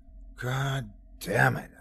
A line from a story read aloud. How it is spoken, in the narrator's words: I sighed, as if our situation wasn't crap enough already